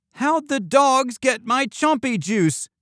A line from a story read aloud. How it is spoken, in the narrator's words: Chompy cried